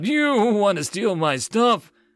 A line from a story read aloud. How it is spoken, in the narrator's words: Taurus giggled